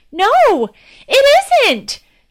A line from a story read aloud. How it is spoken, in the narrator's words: exclaimed